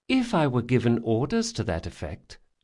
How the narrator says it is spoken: she said sweetly

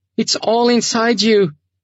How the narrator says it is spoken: Sasha shouted, not giving up

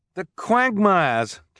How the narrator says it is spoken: Klaus cried

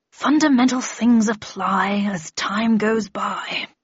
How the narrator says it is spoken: said absently, muttering

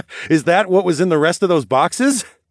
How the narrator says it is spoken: I laughed

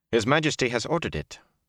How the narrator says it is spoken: Calderwin said sharply

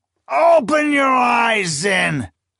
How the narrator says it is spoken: the marshal cried, his voice cracking

